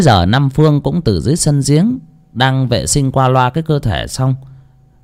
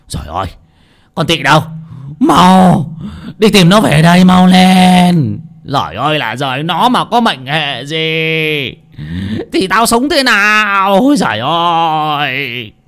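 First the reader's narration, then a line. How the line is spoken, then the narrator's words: Panicked old man's shouting. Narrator (Vietnamese): Biết là có sự chẳng lành, lão vội hét toáng lên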